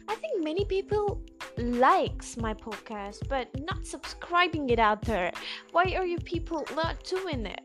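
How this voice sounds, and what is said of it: Put-on British accent. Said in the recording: “Why am I talking in a British accent?”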